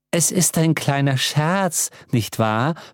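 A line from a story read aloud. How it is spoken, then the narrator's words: Plain. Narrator (German): fragte Frau Allesweiß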